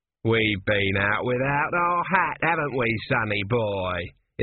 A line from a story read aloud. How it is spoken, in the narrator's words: it said in a cheery voice that echoed oddly inside the metal